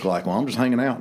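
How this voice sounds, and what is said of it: Impression of Judge Chaney. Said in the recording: “that's my Judge Chaney impression.”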